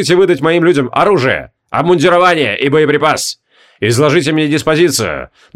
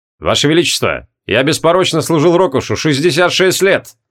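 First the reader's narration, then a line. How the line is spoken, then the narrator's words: Abrupt shift to serious. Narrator (Russian): Резко сменил тон шутливого на серьезный Хабокин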